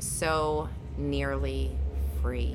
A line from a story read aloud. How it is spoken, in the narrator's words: with his dying breath, muttered the final words